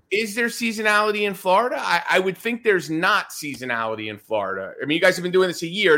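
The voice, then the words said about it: American Northeastern accent. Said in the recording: “I don't know if you could tell from my accent ... I'm from the Northeast”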